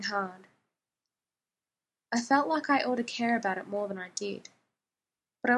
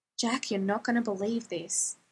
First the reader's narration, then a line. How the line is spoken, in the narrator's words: I whispered